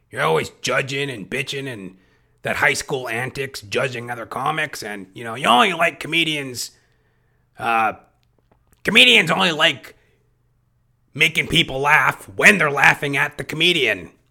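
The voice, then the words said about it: Imitates another comedian's voice. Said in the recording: “I'm going into an impersonation of a comic I respect.”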